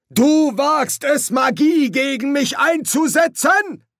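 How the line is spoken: Roared. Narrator (German): brüllte der Dekan

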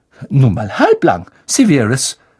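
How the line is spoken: Sharp female voice. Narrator (German): sagte Professor McGonagall scharf

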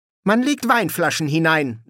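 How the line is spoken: Sharp female voice. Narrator (German): sagte sie scharf

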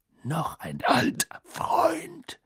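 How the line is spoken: Growled. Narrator (German): knurrte

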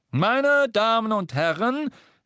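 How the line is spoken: Wizard calling out. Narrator (German): rief der Zauberer

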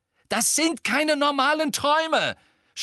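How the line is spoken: Shouting. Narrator (German): schrie Harry sie an

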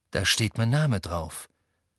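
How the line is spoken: Plain. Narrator (German): sagte Harry

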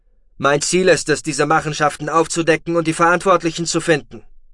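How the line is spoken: Called out. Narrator (German): rief Roden

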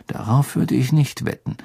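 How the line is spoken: Murmured. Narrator (German): murmelte Harry

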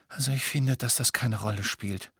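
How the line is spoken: Sighing. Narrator (German): seufzte Hermine

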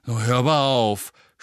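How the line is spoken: Groaning. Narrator (German): stöhnte Ron

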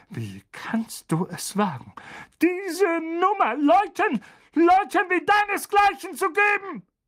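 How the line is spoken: Blustering, spluttering rant. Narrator (German): polterte Onkel Vernon und besprühte Harry mit mächtig viel Spucke

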